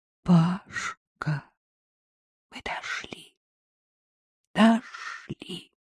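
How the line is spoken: Breathless joyful whisper. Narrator (Russian): задыхаясь от радости, прошептал

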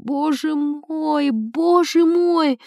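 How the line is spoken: Moaning. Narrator (Russian): В столовой барыня застонала

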